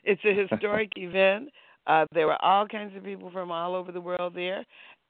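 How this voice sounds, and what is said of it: Hoarse, croaky throat. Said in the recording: “I've got a frog in my throat.”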